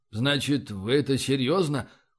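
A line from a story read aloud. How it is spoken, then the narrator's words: Dejected muttering. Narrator (Russian): упавшим голосом пробормотал капитан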